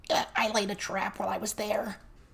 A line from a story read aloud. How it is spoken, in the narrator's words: Cherry Pop whispered, right beside Verona